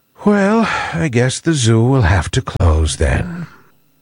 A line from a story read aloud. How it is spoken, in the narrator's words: sighing sadly, he said